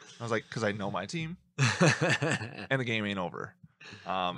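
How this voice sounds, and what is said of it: Usual voice. Nothing is said of it.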